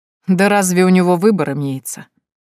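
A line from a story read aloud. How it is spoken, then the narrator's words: Chuckle. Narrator (Russian): хохотнул Лангин Игнатович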